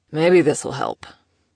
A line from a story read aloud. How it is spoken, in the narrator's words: he muttered